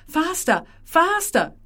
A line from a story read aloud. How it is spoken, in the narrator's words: shouts Marina